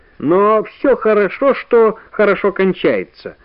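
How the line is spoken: Cheerful. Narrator (Russian): бодро сказал профессор

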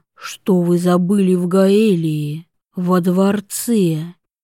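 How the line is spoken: Sighing. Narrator (Russian): Вивьен вздохнула

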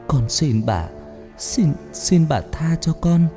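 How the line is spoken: Frightened weak trembling voice. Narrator (Vietnamese): Cô sợ hãi nói giọng yếu ớt run rẩy

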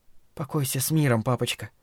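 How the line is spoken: Mutter. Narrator (Russian): пробормотала она

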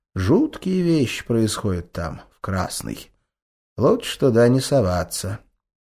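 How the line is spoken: Quiet, pensive, after pause. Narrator (Russian): Он на мгновение замолчал, задумавшись о чем-то, и тихо добавил

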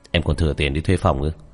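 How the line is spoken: Cold. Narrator (Vietnamese): lạnh lùng nói

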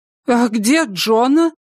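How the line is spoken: Exclamation. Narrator (Russian): воскликнула Инид

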